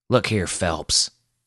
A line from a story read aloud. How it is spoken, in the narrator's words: snarled